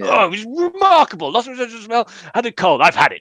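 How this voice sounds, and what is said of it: Imitates another person's voice. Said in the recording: “It was a good impression of me.”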